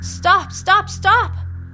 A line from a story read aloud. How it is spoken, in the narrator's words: shouts Magpie at the top of her lungs